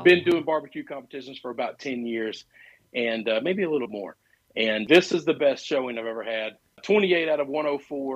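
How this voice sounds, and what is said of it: Slightly cracky, strained voice. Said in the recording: “My voice is a little cracky.”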